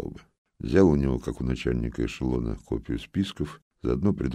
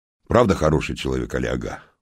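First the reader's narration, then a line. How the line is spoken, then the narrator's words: Official exclaiming. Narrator (Russian): воскликнул коллежский советник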